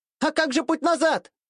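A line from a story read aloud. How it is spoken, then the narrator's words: Shouting over screeching. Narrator (Russian): прокричала в ответ, пытаясь перебить громкие визги умирающих тварей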